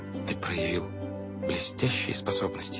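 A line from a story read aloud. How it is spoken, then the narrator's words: Whisper. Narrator (Russian): шепнула Вайолет Клаусу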